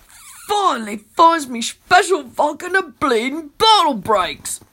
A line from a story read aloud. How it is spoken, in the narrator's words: he moans